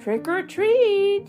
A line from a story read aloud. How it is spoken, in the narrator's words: shouted a scary skeleton